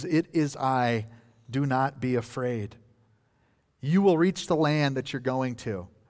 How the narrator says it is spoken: in the midst of that storm, Jesus calmly says

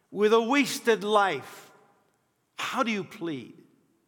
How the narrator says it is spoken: they would shout

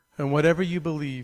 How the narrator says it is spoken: said

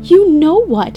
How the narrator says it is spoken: yelled, as I writhed to escape him

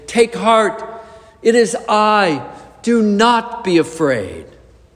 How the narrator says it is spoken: Perhaps he shouted to be overheard over the roar of the wind and the crash of the waves

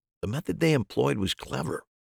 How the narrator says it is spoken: I said quietly

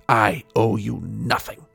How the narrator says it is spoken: snarled, her face alien for a moment, almost feline

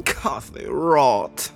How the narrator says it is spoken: groaned Malin

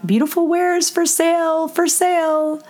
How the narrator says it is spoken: she called out

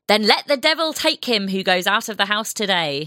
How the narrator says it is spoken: When he was told the early hour, he shouted

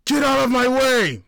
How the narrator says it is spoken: Mikhail screamed

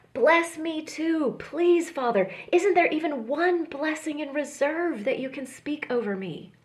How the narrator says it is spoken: pleads

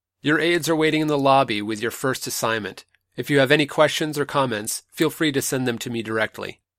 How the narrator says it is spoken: Raising his voice above the applause, Evermore said

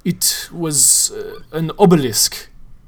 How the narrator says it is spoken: he said gravely

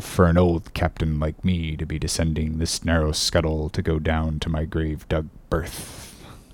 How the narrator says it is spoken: he would mutter to himself

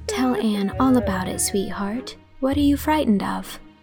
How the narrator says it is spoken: cuddled her sympathetically, and whispered

